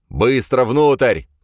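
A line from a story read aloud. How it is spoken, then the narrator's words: Shouted. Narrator (Russian): крикнул Грейлин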